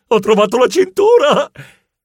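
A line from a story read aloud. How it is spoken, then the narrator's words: Startled shriek. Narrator (Italian): si svegliò di soprassalto e strillò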